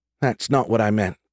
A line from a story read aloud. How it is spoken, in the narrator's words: Cassandra said